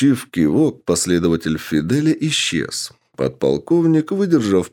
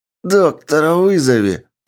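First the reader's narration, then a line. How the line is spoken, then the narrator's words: Demanding shriek. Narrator (Russian): требовательно взвизгнул Кайседо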